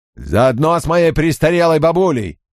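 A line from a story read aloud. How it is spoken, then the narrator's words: Yelled. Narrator (Russian): заорал капитан Доман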